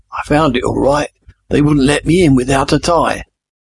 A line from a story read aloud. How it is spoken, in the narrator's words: Jamie rasped